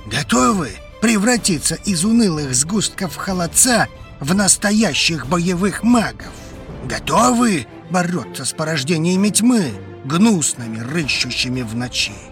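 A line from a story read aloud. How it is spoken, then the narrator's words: Barked right into ear. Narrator (Russian): рявкнул на ухо так, что я подпрыгнула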